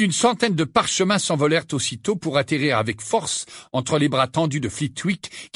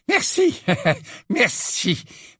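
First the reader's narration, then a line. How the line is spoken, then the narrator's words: Breathless. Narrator (French): dit le professeur Flitwick d'une voix haletante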